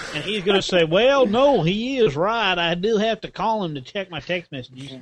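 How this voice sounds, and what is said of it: Put-on southern accent. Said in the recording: “Why do you think everyone has a southern accent? ... Why do you associate ignorance with a southern accent”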